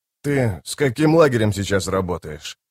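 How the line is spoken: Calm inquiry. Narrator (Russian): спокойно поинтересовался капитан

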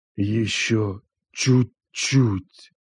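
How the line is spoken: Hoarse pained whisper. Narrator (Russian): хрипло прошептал он, сгорая изнутри

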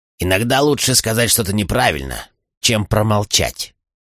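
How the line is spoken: Grumbling. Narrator (Russian): проворчал Чейд

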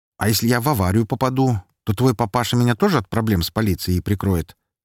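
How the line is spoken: Cheerful, casual tone. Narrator (Russian): спросил я веселым, почти что будничным тоном

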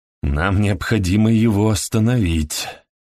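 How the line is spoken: Breathless exhale. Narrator (Russian): выдохнул Морган

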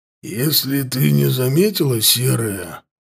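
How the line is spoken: Dull, muffled voice. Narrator (Russian): проговорил ворк глухо

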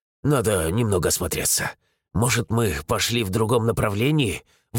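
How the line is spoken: Breathless exhale. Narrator (Russian): выдохнул, справляясь с одышкой

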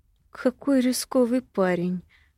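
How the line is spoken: Thoughtful. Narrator (Russian): задумчиво произносит Арвендел

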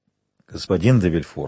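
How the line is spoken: Plain. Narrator (Russian): сказал он

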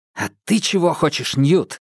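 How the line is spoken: Exclamation. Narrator (Russian): воскликнул Минхо

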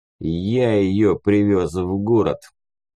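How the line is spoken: Muffled reply. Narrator (Russian): глухо ответил разведчик

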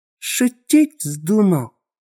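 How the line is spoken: Furious, through gritted teeth. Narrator (Russian): Процедил он сквозь зубы, брызжа слюной

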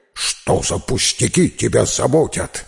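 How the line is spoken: Barking dog. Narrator (Russian): рявкнула собака

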